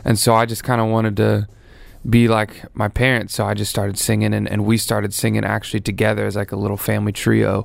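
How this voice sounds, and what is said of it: Mild Tennessee country accent. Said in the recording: “Where's the accent from? ... I'm from Nashville, Tennessee ... I have a little bit of a country accent, I guess ... My accent is very mild.”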